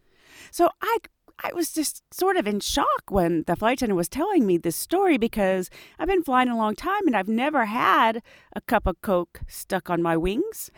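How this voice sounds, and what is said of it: Hoarse, congested voice. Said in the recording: “I'm fighting a cold, so I might be a little hoarse and a little um, stuffed up.”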